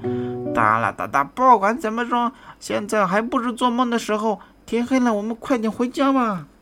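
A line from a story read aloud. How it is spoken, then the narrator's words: Happy shout. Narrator (Chinese): 佐夫很开心地 大声喊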